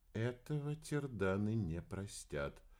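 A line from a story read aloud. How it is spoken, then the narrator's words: Very quiet. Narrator (Russian): очень тихо произнесла Грик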